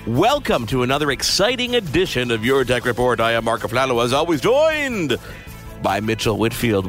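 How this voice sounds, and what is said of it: Exaggerated radio announcer voice. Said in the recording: “I didn't know we were using radio voice today.”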